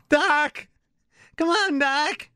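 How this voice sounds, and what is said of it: Marty McFly impression. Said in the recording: “my impression ... of Marty McFly ... Oh, that's terrible ... That's pretty good”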